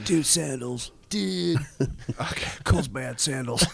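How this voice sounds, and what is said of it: Stoner hippie impression. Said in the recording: “best hippie impression”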